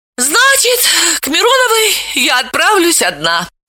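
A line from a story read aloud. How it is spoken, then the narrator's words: Sighing. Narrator (Russian): вздохнула Вета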